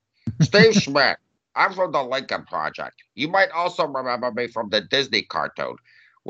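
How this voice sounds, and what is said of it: Imitates another person's voice. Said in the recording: “my Steve Schmidt impersonation”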